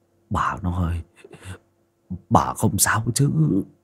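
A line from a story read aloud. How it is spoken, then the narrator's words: Panicked, trembling old man. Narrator (Vietnamese): Ông lão hoảng hồn, giọng run rẩy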